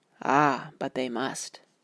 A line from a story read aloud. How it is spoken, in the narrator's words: She said very gravely